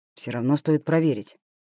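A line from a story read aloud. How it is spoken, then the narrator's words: Mutter. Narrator (Russian): пробормотал Андрей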